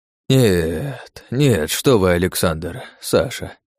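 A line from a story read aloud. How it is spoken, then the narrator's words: Sigh. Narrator (Russian): вздохнул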